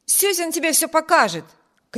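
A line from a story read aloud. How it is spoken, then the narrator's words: Shout. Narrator (Russian): крикнул Виберт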